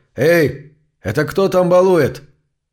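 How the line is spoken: Loud call. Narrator (Russian): громко окликнул

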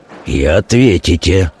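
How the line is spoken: Hollow, muffled voice. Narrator (Russian): глухо произнес Колычев

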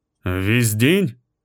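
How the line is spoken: Muffled voice. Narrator (Russian): Ее голос звучал глухо

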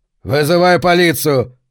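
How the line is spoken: Man barking loudly. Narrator (Russian): гаркнул мужчина

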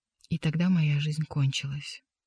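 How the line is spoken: Dejected whisper. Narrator (Russian): прошептал мастер

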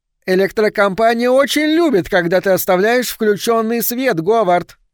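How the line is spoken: Shouted over shoulder. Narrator (Russian): крикнула она через плечо

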